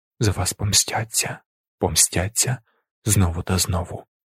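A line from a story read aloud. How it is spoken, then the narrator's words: Almost silent whisper. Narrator (Ukrainian): шепотів він майже беззвучно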